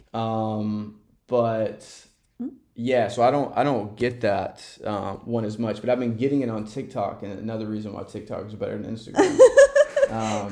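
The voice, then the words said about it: Southern American twang. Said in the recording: “We are from the South originally, so the Southern twang.”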